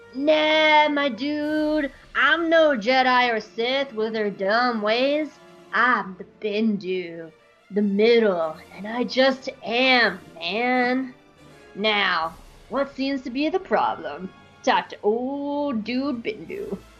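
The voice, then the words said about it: Laid-back dude character voice. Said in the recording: “That's my best dude impression, I'm sorry.”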